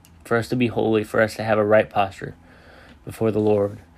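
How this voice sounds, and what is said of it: Hoarse, strained voice. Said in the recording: “I'm kind of losing my voice”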